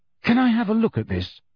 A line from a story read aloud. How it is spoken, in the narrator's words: Harry asked Luna eagerly